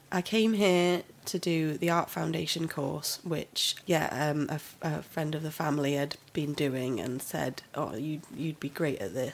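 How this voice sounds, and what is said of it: Northern English Lancashire accent. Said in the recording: “That accent, that's not Welsh, is it? ... I'm from up north, a little place called Ramsbottom, up in Lancashire ... It's a lovely accent.”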